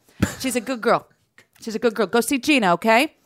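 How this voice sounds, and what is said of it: Put-on Dorchester Boston accent. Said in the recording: “you went into your Dorchester accent.”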